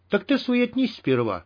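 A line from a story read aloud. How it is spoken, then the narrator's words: Cheerful. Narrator (Russian): бодро отозвался Мякиш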